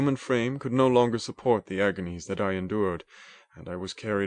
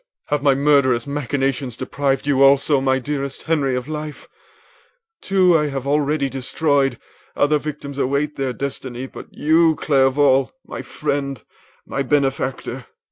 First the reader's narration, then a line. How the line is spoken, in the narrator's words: I gasped for breath, I exclaimed